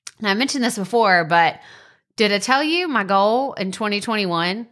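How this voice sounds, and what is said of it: Country-sounding accent. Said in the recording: “That sounded really country.”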